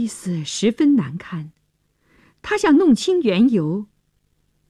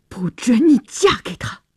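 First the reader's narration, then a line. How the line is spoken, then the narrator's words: Through gritted teeth. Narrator (Chinese): 乔治咬牙切齿地说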